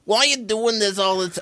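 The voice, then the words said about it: Put-on New York accent. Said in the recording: “it's a New York accent that drives me up the wall”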